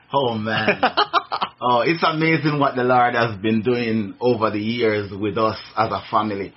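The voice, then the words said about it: Jamaican accent. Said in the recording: “I hope my accent allows you to understand... I'm from Jamaica”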